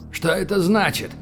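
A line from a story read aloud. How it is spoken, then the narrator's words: Shout. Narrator (Russian): крикнул он вслед своему нежданному спасителю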